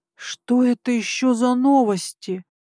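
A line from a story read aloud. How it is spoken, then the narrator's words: Indignant hiss. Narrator (Russian): Возмущенно зашипела я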